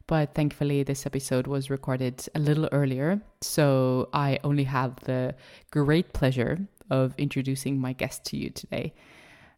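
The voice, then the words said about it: Slightly hoarse voice. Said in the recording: “I'm personally feeling a little bit of a sore throat over here, and my voice is a little hoarse.”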